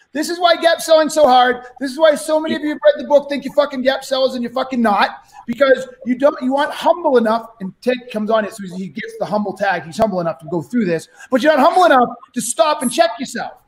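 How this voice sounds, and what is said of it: Yelling, loud raised voice. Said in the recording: “I'm yelling at the audience”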